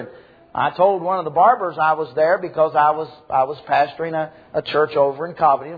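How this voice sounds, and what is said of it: Strong southern American accent. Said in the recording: “my strong southern accent”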